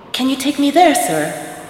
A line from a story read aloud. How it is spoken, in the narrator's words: Astrid asked eagerly